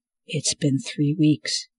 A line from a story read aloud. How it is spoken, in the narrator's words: whispered